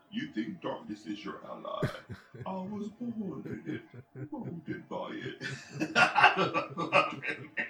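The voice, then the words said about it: Imitates the Bane movie villain voice. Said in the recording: “impression of the Bane voice”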